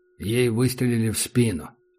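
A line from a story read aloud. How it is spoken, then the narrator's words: Quiet. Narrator (Russian): сказал Питон негромко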